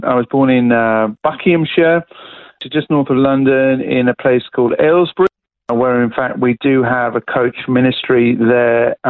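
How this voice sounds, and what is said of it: British accent. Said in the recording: “I was born in the UK, as you could probably pick up from the accent.”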